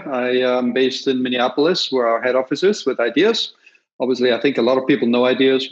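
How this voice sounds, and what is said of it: Austrian accent. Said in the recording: “My accent is from Austria.”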